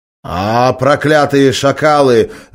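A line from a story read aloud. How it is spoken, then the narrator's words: Growled. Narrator (Russian): зарычал тот, что с телефоном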